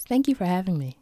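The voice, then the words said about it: Quiet, calm radio-announcer voice. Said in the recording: “In my NPR best voice ... That is exactly like the quiet NPR voice.”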